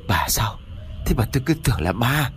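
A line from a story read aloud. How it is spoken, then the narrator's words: Breathless, shaken. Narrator (Vietnamese): Ông Chánh biết đó là vợ của mình, nhưng mà tâm thần vẫn bấn loạn, cho nên thở hổn hển một lúc rồi mới cất tiếng nói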